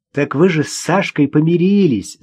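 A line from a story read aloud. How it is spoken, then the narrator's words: Laughing. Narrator (Russian): засмеялась Ирина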